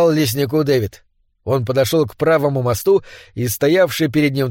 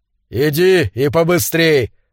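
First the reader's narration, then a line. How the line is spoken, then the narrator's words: Shouted reply. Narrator (Russian): закричал он в ответ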